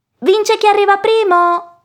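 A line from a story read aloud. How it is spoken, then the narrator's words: Big piglet shouting. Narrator (Italian): gridava il porcellino grande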